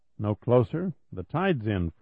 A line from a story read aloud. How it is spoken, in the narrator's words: Freeland said